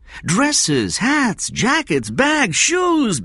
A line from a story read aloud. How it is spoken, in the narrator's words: Benjamin said, his voice rising